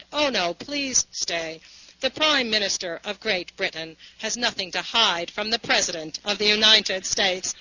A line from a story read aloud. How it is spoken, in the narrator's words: Churchill, ever able to speak spontaneously, in a very formal voice, said